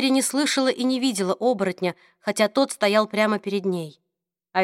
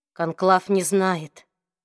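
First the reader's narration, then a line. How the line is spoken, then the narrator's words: Soft. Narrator (Russian): мягко произнес Люк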